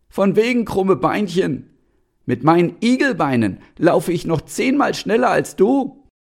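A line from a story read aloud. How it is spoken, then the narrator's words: Annoyed hedgehog shouting back. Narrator (German): Das fand der Igel gar nicht lustig und rief zurück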